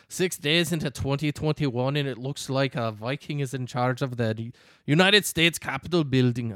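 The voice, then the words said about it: Poor put-on Scottish accent. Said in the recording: “there's my Scottish accent. ... I butchered it.”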